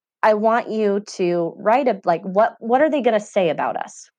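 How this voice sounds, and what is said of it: Teary, emotional voice. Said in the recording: “I'm going to get a little teary.”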